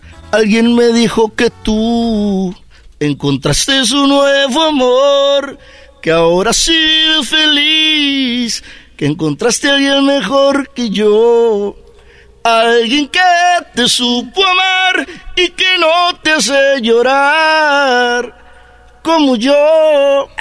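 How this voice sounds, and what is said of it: Imitates another person's singing voice. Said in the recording (Spanish): “qué bien le sale la imitación de, pesado, ¿eh? Muy bien.”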